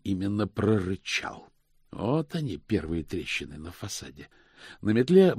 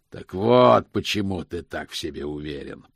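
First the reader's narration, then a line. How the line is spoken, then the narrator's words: Growling. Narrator (Russian): прорычал Позолот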